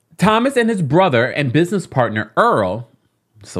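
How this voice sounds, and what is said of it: Usual voice. Nothing is said of it.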